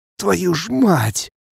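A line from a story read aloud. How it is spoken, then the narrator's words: Hoarse cursing. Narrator (Russian): Хрипло ругаюсь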